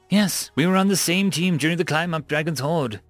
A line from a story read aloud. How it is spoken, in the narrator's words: Tu said